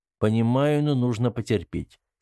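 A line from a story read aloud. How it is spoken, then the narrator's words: Calm. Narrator (Russian): спокойно ответил Артем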